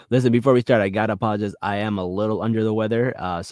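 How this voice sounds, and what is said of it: Raspy, sore voice with vocal fry. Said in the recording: “my voice is a little raspy, a little sore ... You got some vocal fry going.”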